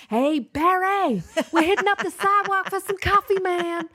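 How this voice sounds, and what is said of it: Put-on American accent. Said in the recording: “I love me a good American accent”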